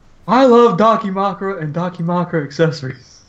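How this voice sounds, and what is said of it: Hank Hill cartoon character impression. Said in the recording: “Who are you impersonating? ... Hank Hill. ... I'm King of the Hill.”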